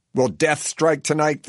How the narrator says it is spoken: the track announcer yells over the loudspeaker system that booms out to the entire fairgrounds

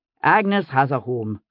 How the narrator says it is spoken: Jamie broke in impatiently

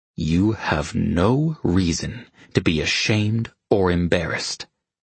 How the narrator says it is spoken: he said through clenched teeth

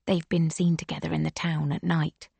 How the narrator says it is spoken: Liuba whispers

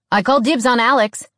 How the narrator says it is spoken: Declan said loudly

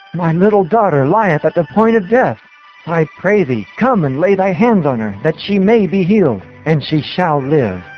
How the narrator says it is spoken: This elder of the Jews came to Jesus in great distress, exclaiming

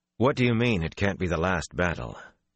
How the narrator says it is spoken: Rand tried to keep his voice smooth

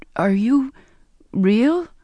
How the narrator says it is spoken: I stammered

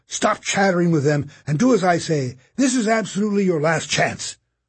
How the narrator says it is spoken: he bellowed

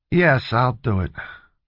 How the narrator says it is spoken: he said in a bored voice

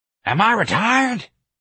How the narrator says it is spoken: Miss Trixie wheezed

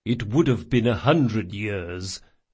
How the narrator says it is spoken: muttered Chains

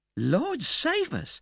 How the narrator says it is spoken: exclaimed the old lady, starting

